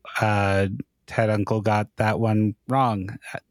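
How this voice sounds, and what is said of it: Imitates another person, slower speech. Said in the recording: “I will be Kyle in this moment ... I can't do a Kyle impression, I've discovered. I didn't even really try there. I think I just spoke more slowly than I usually do.”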